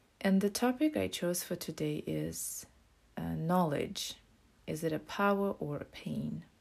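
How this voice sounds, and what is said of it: Voice sounds a bit off. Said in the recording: “apologize for my voice. I still have some allergies, so it might sound funny a little bit.”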